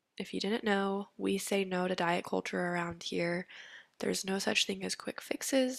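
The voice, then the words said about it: Congested, allergy-affected voice. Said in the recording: “sorry for my voice. I have seasonal allergies right now.”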